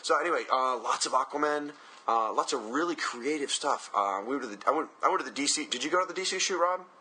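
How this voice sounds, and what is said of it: Strained voice, mostly lost. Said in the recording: “I have lost my voice, so forgive me. It's not my typical lovely melodious tones.”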